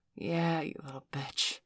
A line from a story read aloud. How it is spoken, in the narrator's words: Valerie sighed